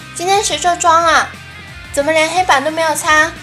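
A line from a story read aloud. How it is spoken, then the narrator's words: Angry shout. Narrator (Chinese): 连带着没有打麻将的不爽一起发泄出来了，大喊道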